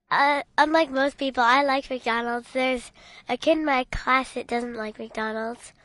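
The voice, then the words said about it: Child's voice sounding sick. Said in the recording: “why does your voice sound so funny today? ... Because I'm still a little bit sick.”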